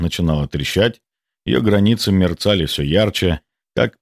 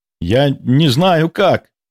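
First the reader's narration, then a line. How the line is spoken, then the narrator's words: Shouted. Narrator (Russian): выкрикнул он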